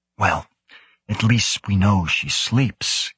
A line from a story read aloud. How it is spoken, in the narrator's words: Karlstad Stage whispered